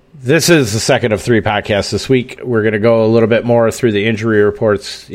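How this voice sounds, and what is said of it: Wisconsin accent. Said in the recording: “my terrific fucking Wisconsin accent.”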